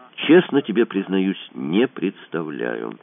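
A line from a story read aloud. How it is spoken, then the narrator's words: Plain. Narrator (Russian): сказал Кацуба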